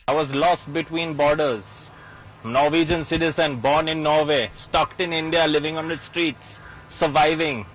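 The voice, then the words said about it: Indian-accented English. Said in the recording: “he, as you might imagine, picked up the accent and all the mannerisms ... talks like this”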